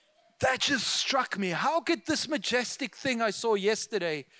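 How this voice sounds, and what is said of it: Usual voice. Nothing is said of it.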